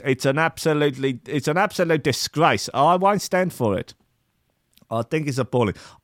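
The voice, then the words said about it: Mixed, hard-to-place accent. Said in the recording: “as all over the shop as my fucking accent. I really no idea what is going on with it. Is it South African? Is it New Zealand? Is there some sort of strange Southeast Asian tinge to it?”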